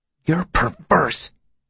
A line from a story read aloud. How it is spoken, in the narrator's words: he spat, his voice almost rising to unacceptable levels